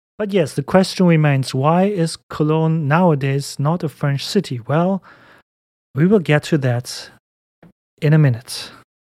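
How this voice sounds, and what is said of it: German-accented English. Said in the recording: “have a German accent and not a French one”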